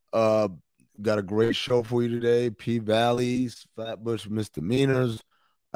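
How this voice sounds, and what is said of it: Tired, worn-out voice. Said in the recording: “As you can tell from my voice, I'm in Las Vegas and I am tired as hell ... I am worn the fuck out”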